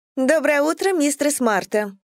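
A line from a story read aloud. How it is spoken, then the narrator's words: Sickeningly cheerful voice. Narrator (Russian): До омерзения бодрым голосом начала она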